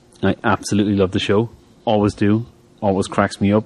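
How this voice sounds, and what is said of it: Noticeable accent. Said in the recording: “you can laugh at my accent”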